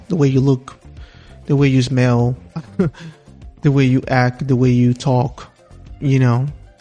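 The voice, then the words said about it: Strong non-native English accent. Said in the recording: “I know that I still have an accent on my English ... I think that's still strong”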